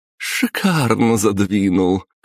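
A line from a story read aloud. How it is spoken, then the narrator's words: Laughing woman. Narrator (Russian): хохотнула баронесса Воробьева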